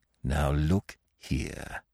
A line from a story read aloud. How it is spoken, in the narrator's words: he said, lowering his voice